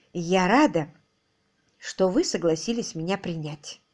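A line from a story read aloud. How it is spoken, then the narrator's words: Soft speech. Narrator (Russian): мягко проговорила она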